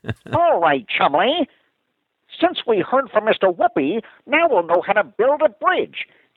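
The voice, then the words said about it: Cartoon character voice. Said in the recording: “I want to do that that voice... you got Chumley down. That's pretty good.”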